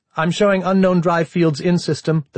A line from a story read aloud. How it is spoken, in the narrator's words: the TAC officer said, in the same clipped tones